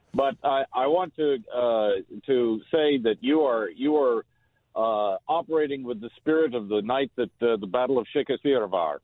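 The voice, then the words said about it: Speaks with a regional accent. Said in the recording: “I like that accent.”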